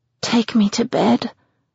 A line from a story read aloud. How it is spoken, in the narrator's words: mumble around his mouth